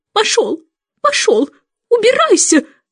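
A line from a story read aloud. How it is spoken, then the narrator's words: Shouting. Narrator (Russian): закричала она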